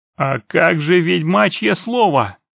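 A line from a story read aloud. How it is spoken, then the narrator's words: Hoarse orc shout. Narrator (Russian): хрипло выкрикнул орк Сатера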